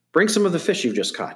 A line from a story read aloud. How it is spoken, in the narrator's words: Jesus said